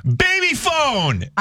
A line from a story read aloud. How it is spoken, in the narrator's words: just out of the blue, I screamed